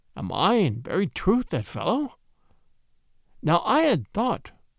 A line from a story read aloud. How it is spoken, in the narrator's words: Said he in a slow, wondering voice